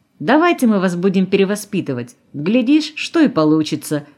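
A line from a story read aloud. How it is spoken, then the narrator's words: Friendly laugh. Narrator (Russian): дружелюбно засмеялся Колосов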